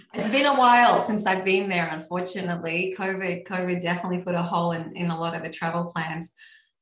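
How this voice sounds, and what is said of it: Australian accent. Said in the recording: “has an accent ... I am originally Australian. I am still Australian.”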